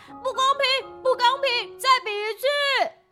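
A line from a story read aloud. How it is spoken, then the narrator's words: Roaring, shouting. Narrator (Chinese): 他大吼大叫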